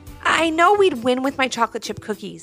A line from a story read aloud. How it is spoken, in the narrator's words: said Ivy, pleading her case